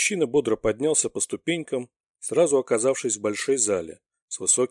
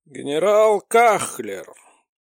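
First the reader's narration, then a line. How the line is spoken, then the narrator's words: Hoarse old man. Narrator (Russian): прохрипел старик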